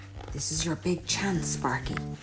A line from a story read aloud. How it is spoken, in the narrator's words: George whispered